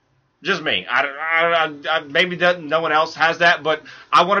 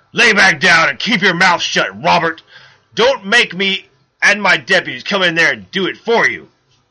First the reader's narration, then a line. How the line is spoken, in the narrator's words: he growled